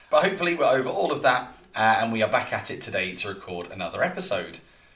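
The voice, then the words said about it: Hoarse, partly lost voice. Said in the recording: “as you may hear, me losing my voice”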